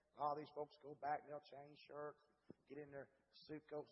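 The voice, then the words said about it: Worn, strained preaching voice. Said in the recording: “my voice is so bad today.”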